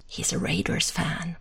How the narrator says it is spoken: He raises a hand to JJ's ear and whispers

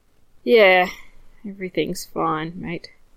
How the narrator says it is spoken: Anton says with a sigh

